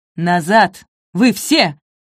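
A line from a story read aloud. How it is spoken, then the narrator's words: Barked roar. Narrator (Russian): рявкнул Цвергер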